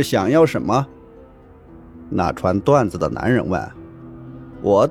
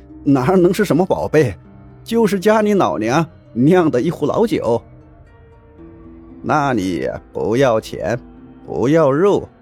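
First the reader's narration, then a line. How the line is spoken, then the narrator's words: Smiling, half-sober old man. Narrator (Chinese): 爷爷……酒也醒了大半……也对着笑脸说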